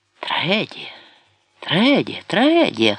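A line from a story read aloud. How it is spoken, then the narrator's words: Hoarse repetition. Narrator (Ukrainian): хрипко повторював Нерон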